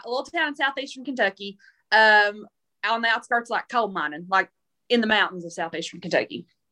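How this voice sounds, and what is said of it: Southern US accent. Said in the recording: “I'm from the South. Obviously, you can probably tell that. ... I could never tell by your voice.”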